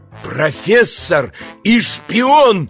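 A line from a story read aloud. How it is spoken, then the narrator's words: Shout. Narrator (Russian): закричал Иван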